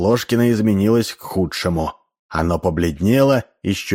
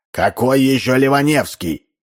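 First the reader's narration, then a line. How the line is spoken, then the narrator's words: Shouted. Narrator (Russian): закричал Ложкин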